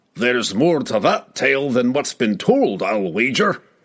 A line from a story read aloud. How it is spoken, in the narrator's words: chuckled